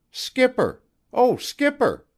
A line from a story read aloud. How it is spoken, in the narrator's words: called out